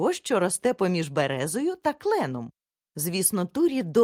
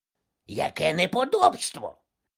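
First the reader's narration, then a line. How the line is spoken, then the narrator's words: Angry drake. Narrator (Ukrainian): сердито сказав качур пан Кракі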